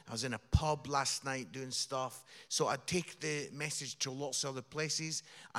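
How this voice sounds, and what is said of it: Scottish accent. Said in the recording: “that accent that you've got is from Scotland. ... Scotland. Yeah. Edinburgh.”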